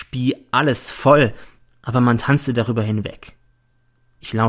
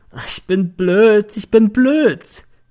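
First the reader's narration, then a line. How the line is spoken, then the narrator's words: Drunken, remorseful sobbing. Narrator (German): Sie hatte sich besoffen, hatte nun einen moralischen und schluchzte in einer Tour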